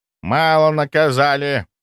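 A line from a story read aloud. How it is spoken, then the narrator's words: Displeased grumbling old man. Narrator (Russian): недовольно пробурчал дед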